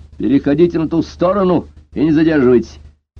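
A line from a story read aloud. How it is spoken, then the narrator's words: Barked order. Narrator (Russian): полицейский рявкнул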